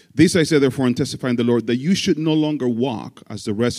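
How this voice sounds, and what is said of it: Speaker with a noticeable accent. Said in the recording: “It's easier for my accent.”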